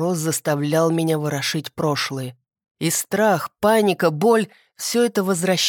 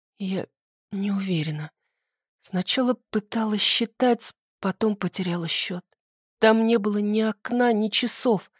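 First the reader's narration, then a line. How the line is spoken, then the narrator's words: Trembling whisper. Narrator (Russian): шептала я, а тело вздрагивало так, словно вернулось в эту темноту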